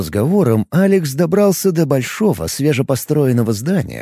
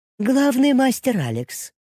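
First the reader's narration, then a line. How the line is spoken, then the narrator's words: Thin-voiced greeting. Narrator (Russian): поприветствовала она гостя тонким голосом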